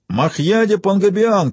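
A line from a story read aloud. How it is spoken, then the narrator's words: Shout. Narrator (Russian): крикнул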